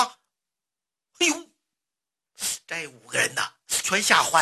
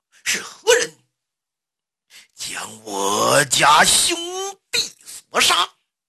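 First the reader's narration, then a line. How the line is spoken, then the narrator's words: Roaring shout. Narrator (Chinese): 刘邦 他吼了那么一声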